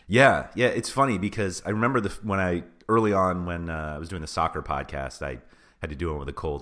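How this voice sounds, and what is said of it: Voice altered by a cold. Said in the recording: “I'm battling a bit of a cold, so my voice is a little different, and I've been coughing nonstop ... You sound very mature and experienced.”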